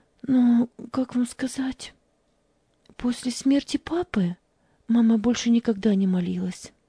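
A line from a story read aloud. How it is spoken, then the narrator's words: Trembling voice. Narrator (Russian): дрожащим голосом ответила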